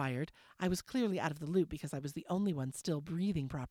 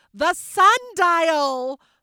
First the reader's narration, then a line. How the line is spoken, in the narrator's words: Mama shouted